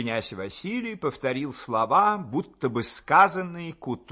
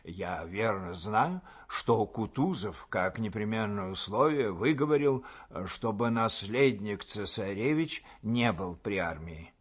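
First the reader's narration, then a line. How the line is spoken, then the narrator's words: Whispered. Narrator (Russian): Он шепотом сказал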